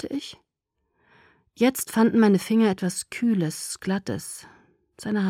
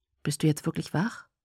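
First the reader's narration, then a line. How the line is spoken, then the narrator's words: Quiet. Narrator (German): sagte er leise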